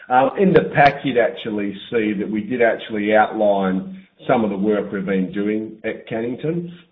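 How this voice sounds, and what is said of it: Slightly hoarse, strained voice. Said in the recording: “I'm actually losing my voice slightly, so I wouldn't say I'm 100% well”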